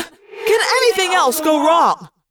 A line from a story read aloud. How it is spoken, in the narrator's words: Jake yelled in frustration